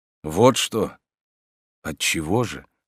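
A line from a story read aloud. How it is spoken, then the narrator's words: Quiet. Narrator (Russian): спросил он ее тихо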